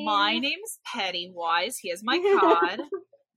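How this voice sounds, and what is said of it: Pennywise impression, like Janice from Friends. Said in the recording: “Your Pennywise impersonation ... my Pennywise is like 90% Janice from Friends”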